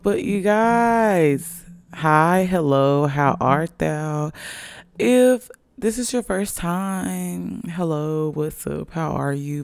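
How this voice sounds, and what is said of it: Raspy voice. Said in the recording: “My voice does sound a little raspy... I had a long night and it's 11 a.m. on a Sunday”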